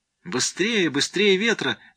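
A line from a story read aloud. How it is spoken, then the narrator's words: Frenzied screaming. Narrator (Russian): не помня себя, вопила Эра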